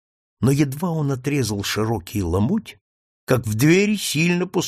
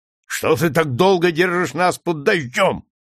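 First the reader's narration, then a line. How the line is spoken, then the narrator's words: Shouting. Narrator (Russian): крикнул Шварц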